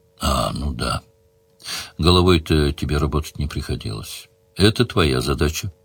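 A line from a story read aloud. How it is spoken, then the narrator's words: Calm reply. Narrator (Russian): спокойно ответила девчонка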